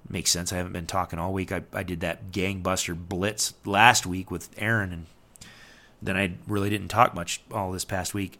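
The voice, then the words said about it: Strained, fading voice. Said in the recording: “I'm starting to lose my voice”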